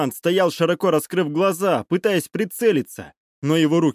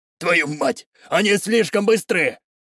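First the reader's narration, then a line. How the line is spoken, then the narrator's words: Shouting. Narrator (Russian): крикнул один из гражданских с оружием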